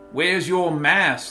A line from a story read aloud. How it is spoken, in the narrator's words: slurred the Walmart greeter, his hand shaking from carbon monoxide poisoning and fiberglass damage to his lungs